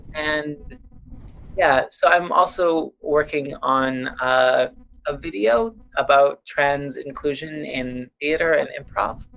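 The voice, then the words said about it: Noticeable accent. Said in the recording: “It's my silly accent.”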